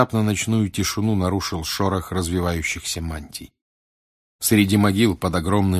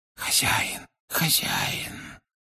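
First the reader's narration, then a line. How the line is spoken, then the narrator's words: Muttered. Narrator (Russian): пробормотал он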